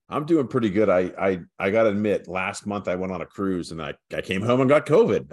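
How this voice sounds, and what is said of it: Slightly hoarse voice. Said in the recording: “Sound a little hoarse.”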